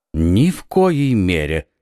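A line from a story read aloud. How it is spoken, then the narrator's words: Calm. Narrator (Russian): спокойно сказал Атос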